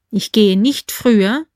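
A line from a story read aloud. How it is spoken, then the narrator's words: Plain. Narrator (German): sagte K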